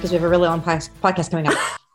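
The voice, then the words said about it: Talking very fast. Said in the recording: “I'm talking really fast ... So that's going to be really fast. I'm coming in too hot.”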